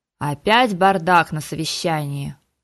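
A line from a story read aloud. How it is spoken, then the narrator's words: Weary growl. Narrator (Russian): устало рыкнул Харган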